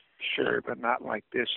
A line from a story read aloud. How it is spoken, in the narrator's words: he said quietly